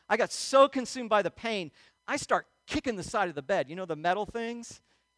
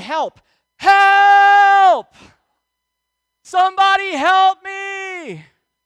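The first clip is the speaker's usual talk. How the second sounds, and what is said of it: Yelling for help. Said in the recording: “I start yelling”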